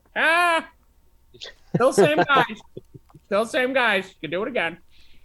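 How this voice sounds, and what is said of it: Imitates another person's voice. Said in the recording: “my Bill Rupp impression”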